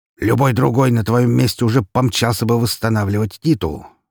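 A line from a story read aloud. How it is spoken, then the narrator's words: Snorting remark. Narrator (Russian): хмыкнул Распутин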